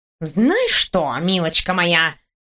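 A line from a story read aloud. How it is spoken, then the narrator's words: Menacing outburst. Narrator (Russian): грозно вспыхнул профессор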